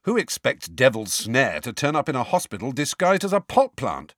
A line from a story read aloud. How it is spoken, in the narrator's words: said Ron sharply